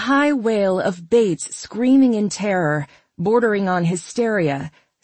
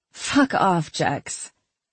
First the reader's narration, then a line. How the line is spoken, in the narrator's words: Mad chuckled and said